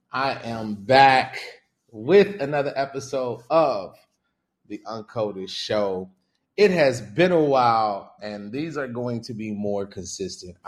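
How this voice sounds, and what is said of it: Excited, energetic voice. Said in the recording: “y'all can hear the excitement in my voice.”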